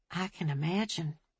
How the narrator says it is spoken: Ophelia said quietly

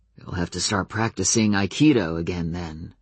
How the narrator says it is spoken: said Adam, his voice as quiet and calm as if he hadn't just thrown a hissy fit a few minutes ago

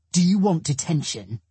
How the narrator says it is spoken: He snaps

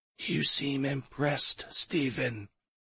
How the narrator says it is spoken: She whispered

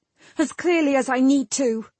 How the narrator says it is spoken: Bronwyn snapped

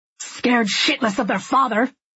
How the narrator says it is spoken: he snaps back

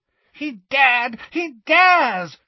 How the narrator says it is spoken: shrieked Bellatrix incoherently

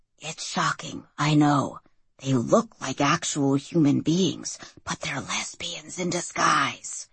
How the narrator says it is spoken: Mike whispered

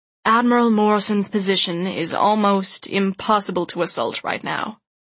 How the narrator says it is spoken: he added grimly

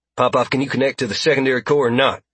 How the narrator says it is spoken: Popov grunted

